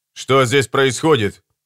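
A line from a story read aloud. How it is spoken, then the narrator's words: Sharp question. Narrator (Russian): резко спросил Чельмсвуд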